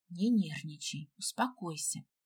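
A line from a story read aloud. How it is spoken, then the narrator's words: Whispering. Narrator (Russian): Гела прошептав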